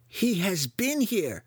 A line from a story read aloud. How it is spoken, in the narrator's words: Clacker cried